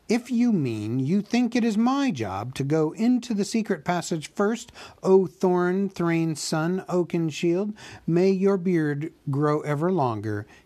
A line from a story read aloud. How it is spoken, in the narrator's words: he said crossly